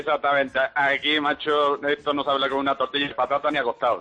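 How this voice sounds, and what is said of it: Andalusian Spanish accent. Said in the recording (Spanish): “tienes acento andaluz”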